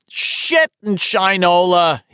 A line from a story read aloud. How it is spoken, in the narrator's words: he yelled again